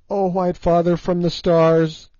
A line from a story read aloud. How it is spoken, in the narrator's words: she cried